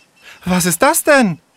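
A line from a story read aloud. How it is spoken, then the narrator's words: Breathless gasping. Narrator (German): japste sie außer Atem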